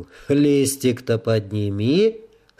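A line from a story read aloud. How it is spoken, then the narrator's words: Calm speech. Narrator (Russian): спокойно произнес Ригор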